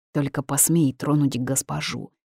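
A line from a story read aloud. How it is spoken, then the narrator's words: Snarling growl, bared fangs. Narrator (Russian): зарычал, оскаливая клыки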